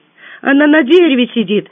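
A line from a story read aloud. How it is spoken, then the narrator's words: Joyful girl announcing. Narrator (Russian): радостно оповестила девочка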